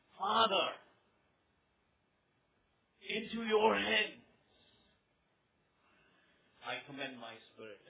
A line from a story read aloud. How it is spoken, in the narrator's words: Jesus had cried out with a loud voice, he said